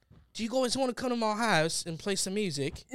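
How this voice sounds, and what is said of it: Weak put-on English accent. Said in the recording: “I always thought that I was really good at an English accent, like from England, but apparently I'm like really bad at it.”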